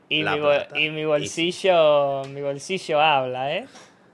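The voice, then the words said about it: Put-on Argentine Spanish accent. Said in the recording (Spanish): “tú ahora acabas de hablar en acento argentino”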